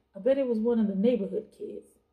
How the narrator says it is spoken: Wyatt laughed

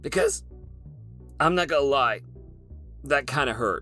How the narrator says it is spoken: she cried

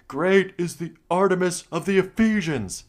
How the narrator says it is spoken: kept shouting

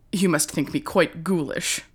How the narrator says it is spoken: said Mrs

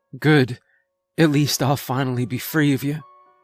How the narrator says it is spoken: she choked out

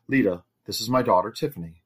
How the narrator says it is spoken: the master said warmly

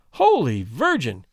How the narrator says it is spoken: cried the young lady

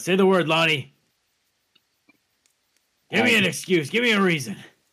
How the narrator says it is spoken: I shout

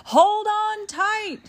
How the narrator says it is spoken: the ride operator yelled

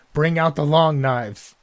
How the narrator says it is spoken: she screams out

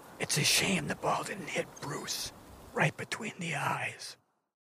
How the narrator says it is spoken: I whisper to Dan

